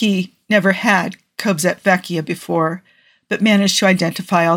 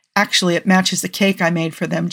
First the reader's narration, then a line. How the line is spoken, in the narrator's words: Joe said